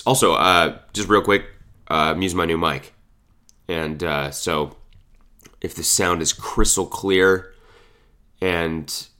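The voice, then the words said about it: Sick-sounding voice. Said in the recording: “I don't know if you can tell by the sound of my voice, but I'm very sick right now. Extremely sick.”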